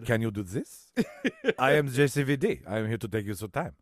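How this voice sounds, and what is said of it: French accent impression of an actor. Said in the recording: “The French accent that's from Jean-Claude Van Damme”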